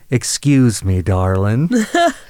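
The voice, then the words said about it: Southern drawl. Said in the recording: “with this wonderful southern accent ... that southern drawl”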